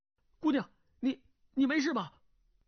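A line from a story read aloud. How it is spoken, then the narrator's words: Calling out. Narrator (Chinese): 叫道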